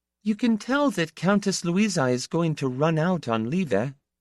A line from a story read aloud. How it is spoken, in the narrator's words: she said dreamily